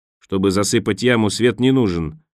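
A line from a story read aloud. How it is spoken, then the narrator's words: Barking. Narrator (Russian): рявкнул Хамед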